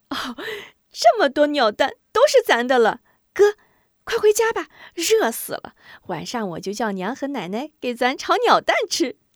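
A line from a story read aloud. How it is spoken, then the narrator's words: Excited giggling. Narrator (Chinese): 韩晶兴奋的咯咯笑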